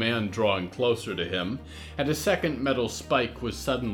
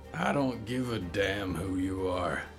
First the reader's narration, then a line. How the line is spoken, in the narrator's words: Rick grunted